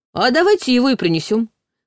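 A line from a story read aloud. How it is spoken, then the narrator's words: Snorting remark. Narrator (Russian): хмыкнул Ваня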